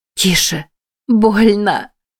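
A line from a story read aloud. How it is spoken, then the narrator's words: Whimpering in pain. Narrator (Russian): заскулила Джен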